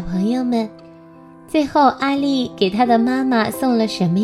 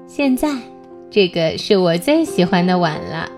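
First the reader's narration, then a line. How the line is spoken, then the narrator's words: Laughing mother. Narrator (Chinese): 妈妈笑着说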